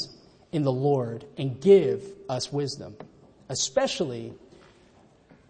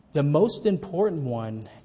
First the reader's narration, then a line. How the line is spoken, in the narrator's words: answered Jesus